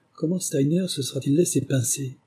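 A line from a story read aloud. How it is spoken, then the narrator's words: Murmured. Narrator (French): murmura-t-il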